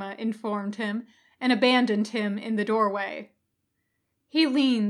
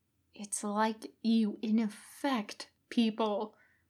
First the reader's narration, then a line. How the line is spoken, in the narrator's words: Kakashi hissed under his breath